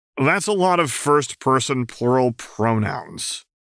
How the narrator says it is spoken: Karkat grumbled

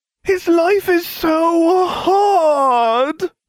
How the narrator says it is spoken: Ron whined

